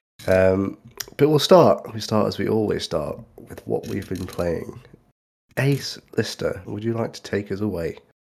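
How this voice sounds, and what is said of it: Congested voice with a cold. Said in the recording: “you both sound significantly more healthy than I do... I've got a bit of a cold, if you can't tell”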